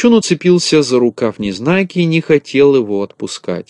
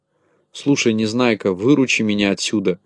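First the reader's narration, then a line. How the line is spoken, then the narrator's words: Whispering. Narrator (Russian): зашептал Ворчун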